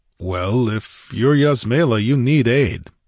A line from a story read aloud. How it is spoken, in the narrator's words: he grunted